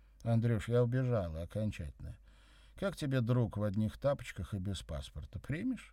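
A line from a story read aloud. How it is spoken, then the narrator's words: Cheerful, low-key. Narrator (Russian): весело сказала я, стараясь не привлекать внимания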